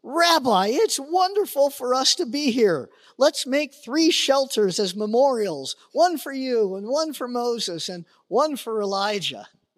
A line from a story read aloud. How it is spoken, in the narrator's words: Peter exclaimed